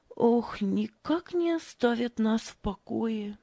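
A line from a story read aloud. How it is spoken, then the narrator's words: Sighing. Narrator (Russian): вздохнула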